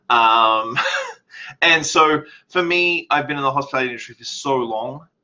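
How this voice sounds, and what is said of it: Australian accent. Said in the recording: “left everything behind in Australia. Obviously, I'm not Canadian because of my accent.”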